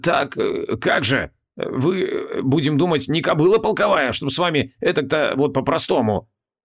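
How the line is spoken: Embarrassed mumble. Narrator (Russian): смущенно пробормотал Хабокин

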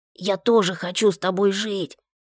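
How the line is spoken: Hoarse wheeze. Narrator (Russian): просипела Маша

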